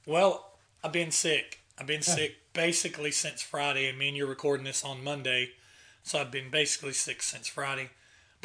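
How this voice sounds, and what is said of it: Raspy hoarse voice. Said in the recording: “I'm back with a raspy voice”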